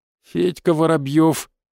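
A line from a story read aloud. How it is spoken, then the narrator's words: Forced, strained. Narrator (Russian): выдавил парень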